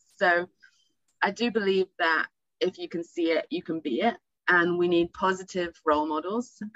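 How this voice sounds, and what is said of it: English accent. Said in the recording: “I was back in England, as you can tell by the accent.”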